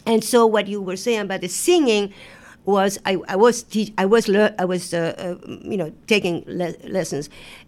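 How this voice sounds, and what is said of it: Speaks with an accent. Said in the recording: “with my accent”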